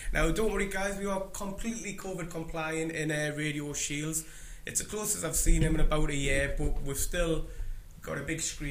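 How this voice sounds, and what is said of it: Sore, strained voice. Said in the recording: “I don't know if you can hear by my voice, but it's a bit sore this morning”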